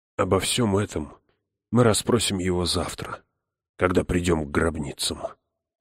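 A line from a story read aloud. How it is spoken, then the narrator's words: Tired. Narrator (Russian): устало сказал отец Хойт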